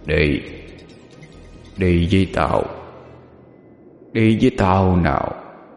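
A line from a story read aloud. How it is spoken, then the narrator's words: Deep hoarse demonic voice. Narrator (Vietnamese): Từ trong cổ họng quỷ dữ phát ra một âm thanh ồm ồm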